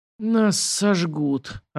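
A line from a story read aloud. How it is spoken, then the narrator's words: Doomed, hoarse rasp. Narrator (Russian): обреченно прохрипел Морозов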